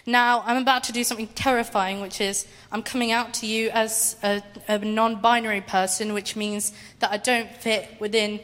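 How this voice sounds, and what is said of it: Emotional, shaky voice. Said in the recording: “I'm getting emotional, I'm so sorry.”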